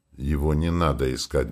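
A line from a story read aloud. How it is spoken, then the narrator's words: Grumbling. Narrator (Russian): буркнул Вельмар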